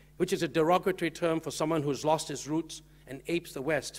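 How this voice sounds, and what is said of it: Accent between English and American. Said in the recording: “my natural accent, as you can hear, is somewhat between English and American or somewhere in between”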